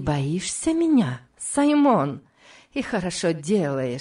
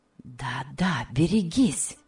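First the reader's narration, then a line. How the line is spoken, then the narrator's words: Hissing whisper close by. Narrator (Russian): она произнесла свистящим шепотом у самого его уха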